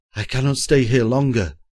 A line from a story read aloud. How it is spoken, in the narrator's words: groaned Simard, quaking, his nerves, like himself, in rags